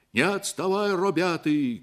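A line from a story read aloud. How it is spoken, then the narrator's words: Shouting. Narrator (Russian): кричали они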